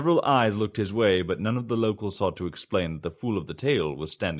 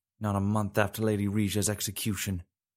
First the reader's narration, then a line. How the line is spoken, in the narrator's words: muttered a housemaid